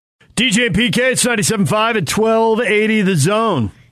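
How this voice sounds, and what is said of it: DJ radio announcer voice. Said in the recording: “I like the radio voice. I like the DJ radio voice.”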